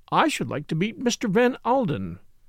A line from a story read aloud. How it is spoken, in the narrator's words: said Lady Tamplin earnestly